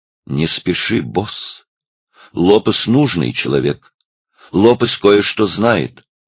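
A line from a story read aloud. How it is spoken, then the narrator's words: Quiet, deliberate speech. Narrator (Russian): негромко раздельно сказал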